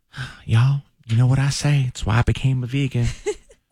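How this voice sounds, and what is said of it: Imitates another person's voice. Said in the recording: “in my Dallas voice”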